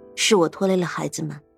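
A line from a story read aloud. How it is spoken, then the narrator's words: Calm sigh. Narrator (Chinese): 苏月心却只是淡淡的叹了口气，说道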